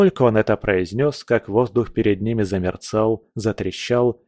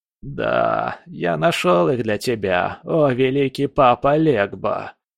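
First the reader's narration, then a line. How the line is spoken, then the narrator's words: Nasty creaking voice. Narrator (Russian): проскрипел он противным голосом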